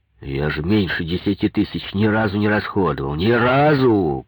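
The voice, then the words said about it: Raised, shouting voice. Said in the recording (Russian): “повысил голос ... не ори ... грохотал”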